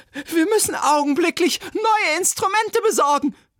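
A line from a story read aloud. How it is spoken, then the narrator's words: Shrill cry. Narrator (German): rief schrill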